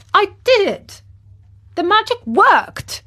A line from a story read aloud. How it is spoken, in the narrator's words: he cried